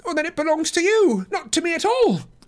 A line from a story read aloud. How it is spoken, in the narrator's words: cried Frodo in amazement